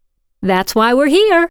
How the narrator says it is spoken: Caroline replied cheerfully

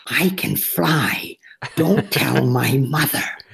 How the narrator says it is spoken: whispers

